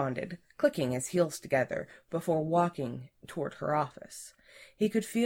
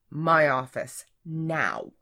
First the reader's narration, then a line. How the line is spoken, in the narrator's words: she replied sternly, her face reddening